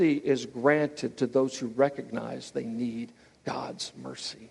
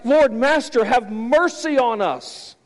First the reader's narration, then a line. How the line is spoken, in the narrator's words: 10 lepers who were ostracized from the community in Luke 17 cried